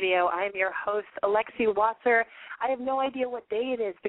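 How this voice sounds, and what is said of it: Hoarse voice, losing it. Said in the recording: “I'm clearly losing my voice. I've been fighting a cold this entire week.”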